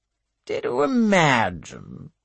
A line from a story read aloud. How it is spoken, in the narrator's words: one drawls